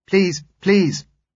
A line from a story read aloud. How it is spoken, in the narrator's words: she said urgently